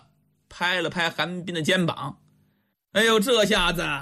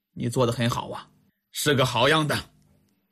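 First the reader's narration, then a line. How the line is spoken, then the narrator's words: Relieved sigh. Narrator (Chinese): 李元芳神色才缓过来，叹了口气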